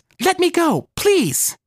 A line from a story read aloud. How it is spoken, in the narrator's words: Marisol screams